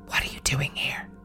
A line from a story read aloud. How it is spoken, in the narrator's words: heard a man whisper